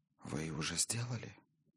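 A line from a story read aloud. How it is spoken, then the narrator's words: Soft reply. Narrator (Russian): тихонько ответила Гиллера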